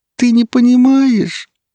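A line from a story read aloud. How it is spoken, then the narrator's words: Moan. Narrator (Russian): простонала она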